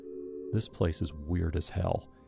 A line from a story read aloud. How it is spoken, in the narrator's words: he said quietly